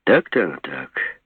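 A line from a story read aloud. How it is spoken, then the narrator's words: Relieved sigh. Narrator (Russian): облегченно вздохнул Жеглов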